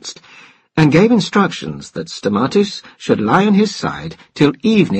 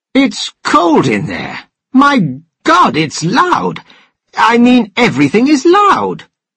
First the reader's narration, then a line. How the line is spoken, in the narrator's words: Stamatis exclaimed